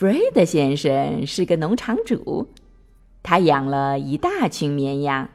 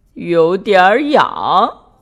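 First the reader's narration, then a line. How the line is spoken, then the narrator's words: Laughing. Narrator (Chinese): 珍妮笑着说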